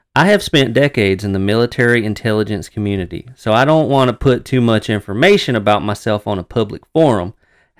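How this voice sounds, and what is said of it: Texas accent. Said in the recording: “Texas accent ... you found it. It's there.”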